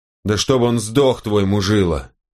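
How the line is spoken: Growled. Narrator (Russian): прорычал Вельх

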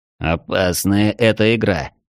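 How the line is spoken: Grumbling. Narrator (Russian): проворчал Комтур

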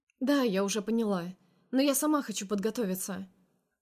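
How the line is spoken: Matter-of-fact tone. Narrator (Russian): говорит она обыденным тоном

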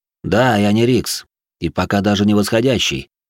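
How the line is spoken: Calm. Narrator (Russian): спокойно кивнул я

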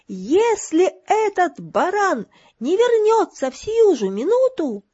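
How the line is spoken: Shouted skyward. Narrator (Russian): крикнула она в небо

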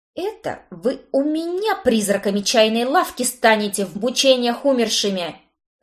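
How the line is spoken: Angry bark. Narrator (Russian): рявкнула я

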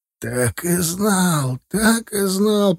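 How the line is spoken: Groaning. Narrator (Russian): простонал директор

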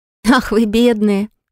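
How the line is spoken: Laughing. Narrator (Russian): Рассмеялась я

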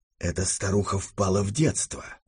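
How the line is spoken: Whisper. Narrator (Russian): шепнул мне Дегрие

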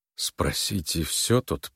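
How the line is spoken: Muttered. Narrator (Russian): пробормотал он

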